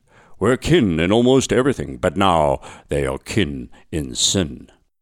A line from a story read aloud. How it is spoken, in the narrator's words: intoned